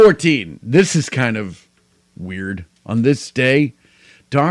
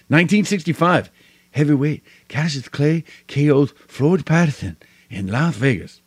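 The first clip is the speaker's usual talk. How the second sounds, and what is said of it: Poor Muhammad Ali impression. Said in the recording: “That's the worst Muhammad Ali impression I've ever done.”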